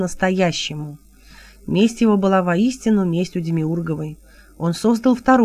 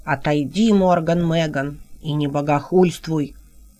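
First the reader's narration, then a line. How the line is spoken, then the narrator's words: Stern. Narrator (Russian): строго сказали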